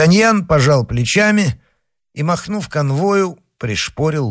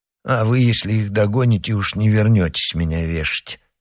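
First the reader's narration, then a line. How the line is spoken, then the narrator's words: Soldier grumbling. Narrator (Russian): проворчал солдат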